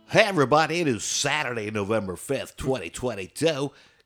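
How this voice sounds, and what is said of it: Cheesy radio announcer voice. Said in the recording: “Got my cheesy radio announcer voice”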